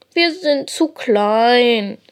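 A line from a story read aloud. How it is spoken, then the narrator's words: Sad voice. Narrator (German): sagt traurig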